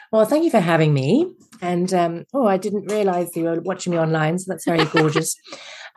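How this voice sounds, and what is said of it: English accent, Mary Poppins style. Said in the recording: “your fabulous accent ... I'm originally English, as you can tell by my Mary Poppins / Nanny McPhee accent”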